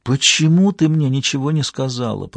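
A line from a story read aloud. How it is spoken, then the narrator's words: Close whisper. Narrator (Russian): прошептал он ей в затылок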